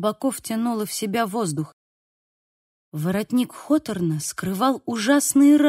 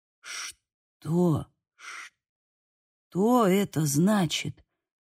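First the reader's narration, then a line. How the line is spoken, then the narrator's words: Hoarse question. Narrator (Russian): спросил Хольден хриплым голосом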